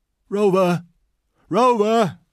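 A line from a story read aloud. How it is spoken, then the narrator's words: Old man calls out. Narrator (German): rief der alte Mann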